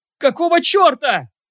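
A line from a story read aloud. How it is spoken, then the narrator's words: Screaming at top of lungs. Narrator (Russian): орал благим матом один из героев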